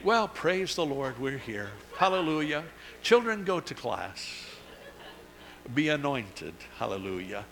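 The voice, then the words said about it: Put-on sweet pious church voice. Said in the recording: “put on your church voice”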